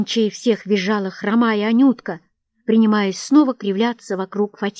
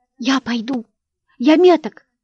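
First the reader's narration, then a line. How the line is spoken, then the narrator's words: Tearful shout. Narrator (Russian): скричал Ванюшка, торопливо утирая слезы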